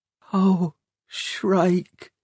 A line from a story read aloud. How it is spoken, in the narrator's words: whispered Hester